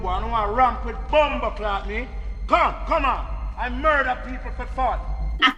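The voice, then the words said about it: Put-on Jamaican accent. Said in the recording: “The accent.”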